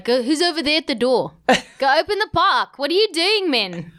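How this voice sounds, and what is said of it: Put-on South African accent. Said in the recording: “This is my South African accent.”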